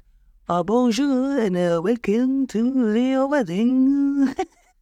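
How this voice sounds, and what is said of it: Put-on Belgian French accent. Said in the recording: “Do I sound fancy? ... a real live Belgique chateau. That's why I did the whole ceremony in the accent.”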